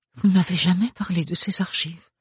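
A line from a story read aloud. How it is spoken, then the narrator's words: Murmur. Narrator (French): murmura Ophélie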